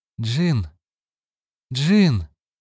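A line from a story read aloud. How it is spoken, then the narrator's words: Hoarse calling. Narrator (Russian): хрипло позвала она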